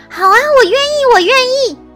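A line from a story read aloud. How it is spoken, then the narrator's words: Loud shout. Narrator (Chinese): 我立刻大喊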